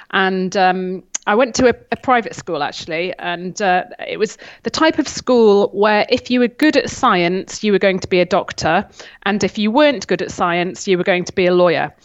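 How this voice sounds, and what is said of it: Northern English accent, flat A's. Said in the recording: “you'd notice my flat A's ... you can still detect the northern accent”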